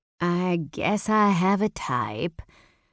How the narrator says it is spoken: I drawled

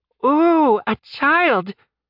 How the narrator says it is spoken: Smartass cried

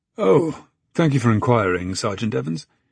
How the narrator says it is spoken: he sighed

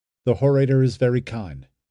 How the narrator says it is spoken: the rower answered

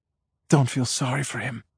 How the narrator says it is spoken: Patty whispers

